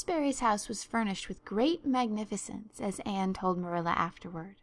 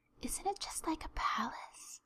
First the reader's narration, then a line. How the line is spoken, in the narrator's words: whispered Diana